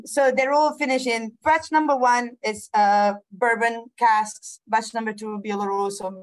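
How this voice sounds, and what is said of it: Italian and Scottish accent. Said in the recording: “my Italian/Scottish accent”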